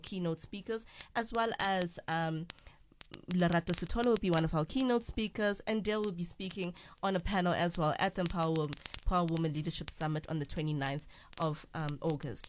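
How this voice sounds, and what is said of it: Fast late-night radio voice. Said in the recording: “I know I'm speaking fast now because my time is up ... I hope you enjoyed my radio voice ... Late night radio.”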